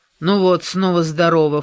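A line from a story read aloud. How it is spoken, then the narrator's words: Snorting. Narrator (Russian): фыркнула Корделия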